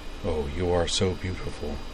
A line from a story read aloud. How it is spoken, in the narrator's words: murmured Walter